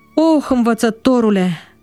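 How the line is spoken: Sighing. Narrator (Romanian): a suspinat el

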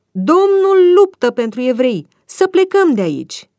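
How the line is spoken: Frightened crowd shouting. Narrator (Romanian): egiptenii au început să strige

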